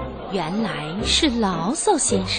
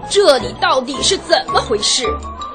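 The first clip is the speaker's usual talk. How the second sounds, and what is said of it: Angry, indignant character voice. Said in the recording (Chinese): “另一个怒气冲冲的声音说”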